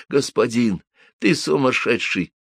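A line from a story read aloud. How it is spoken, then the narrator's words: Near-silent whisper. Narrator (Russian): почти беззвучно прошептал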